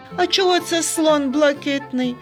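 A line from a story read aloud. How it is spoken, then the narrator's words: Laughing. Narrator (Ukrainian): засміявся Сергійко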